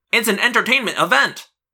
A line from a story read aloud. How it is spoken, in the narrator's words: Marco cried